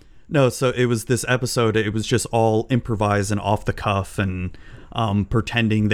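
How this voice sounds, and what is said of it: Usual voice. Nothing is said of it.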